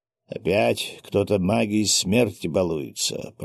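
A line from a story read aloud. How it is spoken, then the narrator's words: Grumbling. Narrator (Russian): проворчал Ростислав Витальевич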